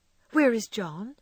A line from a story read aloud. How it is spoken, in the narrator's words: asked Meg anxiously